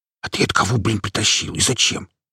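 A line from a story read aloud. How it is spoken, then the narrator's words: Whispered question. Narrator (Russian): шепотом поинтересовался я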